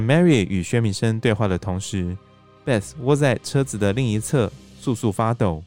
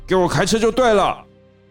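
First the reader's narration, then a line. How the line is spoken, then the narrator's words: Loud roar. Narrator (Chinese): 大声咆哮道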